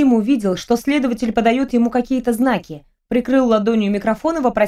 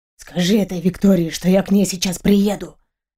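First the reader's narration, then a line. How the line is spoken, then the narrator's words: Whisper. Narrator (Russian): шепнул он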